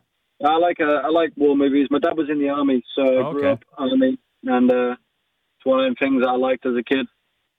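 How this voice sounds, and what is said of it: Northern English accent. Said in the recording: “oh, your accent. Oh, I like your accent. ... where are you from in the UK? ... a town called Skipton, which is close to Leeds ... Every city's got their own accent.”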